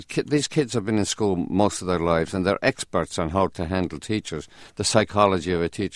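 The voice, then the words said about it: Irish accent. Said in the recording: “because of my accent ... you Scotch or something? ... No, I'm Irish.”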